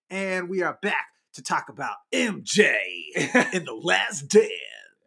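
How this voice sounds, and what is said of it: Exaggerated radio announcer voice. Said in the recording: “this is my radio voice ... All right, Casey Kasem.”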